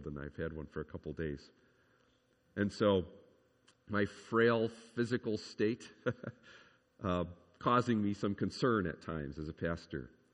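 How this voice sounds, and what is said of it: Congested voice from a cold. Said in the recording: “you can tell I have a cold”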